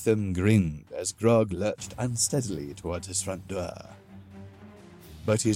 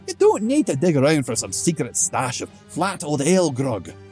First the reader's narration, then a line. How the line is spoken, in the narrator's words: Thetham yelled